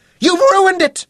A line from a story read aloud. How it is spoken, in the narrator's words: Kitty screamed